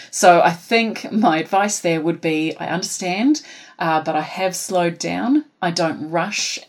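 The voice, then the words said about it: New Zealand accent. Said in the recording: “I know as a Kiwi ... from when I speak naturally in my Kiwi accent”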